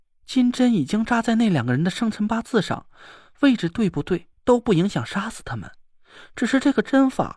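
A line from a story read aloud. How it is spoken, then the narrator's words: Sighing. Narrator (Chinese): 田慧文叹了口气说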